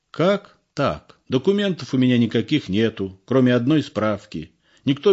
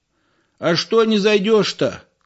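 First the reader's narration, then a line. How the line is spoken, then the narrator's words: Shout from porch. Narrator (Russian): крикнул Егору с крыльца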